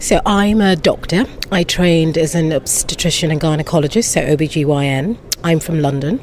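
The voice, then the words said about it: British accent. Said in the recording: “a to-die-for British accent”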